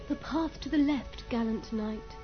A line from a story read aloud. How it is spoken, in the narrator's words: she brought her mouth close to his ear and whispered